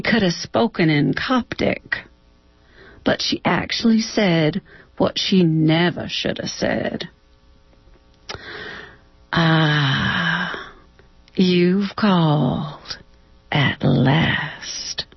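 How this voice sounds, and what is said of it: Somewhat southern American accent. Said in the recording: “you read it with a somewhat southern accent”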